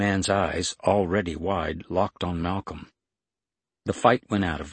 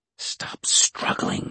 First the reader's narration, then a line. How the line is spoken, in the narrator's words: she hissed to the guard